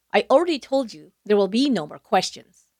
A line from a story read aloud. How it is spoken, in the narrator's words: Kennedy snapped